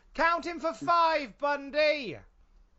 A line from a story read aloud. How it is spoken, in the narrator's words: yell